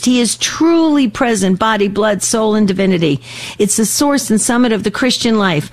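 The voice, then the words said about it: Passionate, intense delivery. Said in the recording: “hear the passion in my voice ... You can hear the intensity in the way I'm trying to communicate this”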